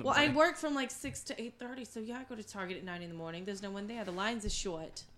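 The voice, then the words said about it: Put-on New Jersey accent. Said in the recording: “you're still talking to Jersey accent. She only does this when she's lit.”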